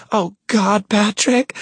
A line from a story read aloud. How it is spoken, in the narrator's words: she sobs